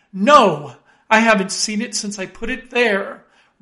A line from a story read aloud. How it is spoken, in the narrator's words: exclaimed